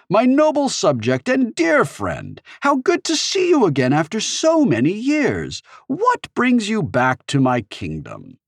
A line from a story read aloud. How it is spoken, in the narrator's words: cried Queen Itzelot